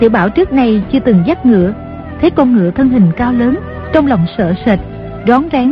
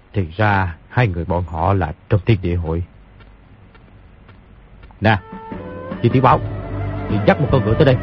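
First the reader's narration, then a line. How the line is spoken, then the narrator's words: Muttering. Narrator (Vietnamese): lẩm bẩm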